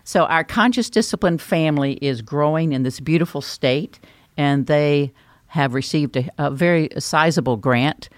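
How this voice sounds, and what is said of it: North Carolina Southern US accent. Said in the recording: “if you're thinking that's where my accent came from. That came from North Carolina.”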